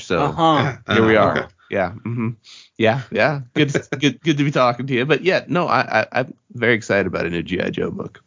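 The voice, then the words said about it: Voice sounds deeper than usual. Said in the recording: “you sound way different than you sounded earlier ... something dropped and now suddenly my voice is deeper”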